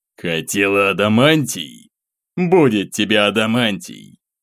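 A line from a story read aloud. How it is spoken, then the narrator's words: Hateful vengeful growl. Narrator (Russian): прорычал неизвестный, горящими огнем ненависти и мести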